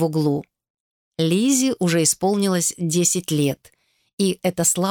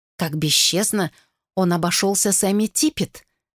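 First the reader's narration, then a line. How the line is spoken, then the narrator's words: Whispering. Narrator (Russian): шептала одна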